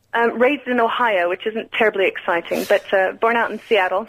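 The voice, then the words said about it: American accent. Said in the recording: “Where's your accent? Are you Canadian? ... I'm American”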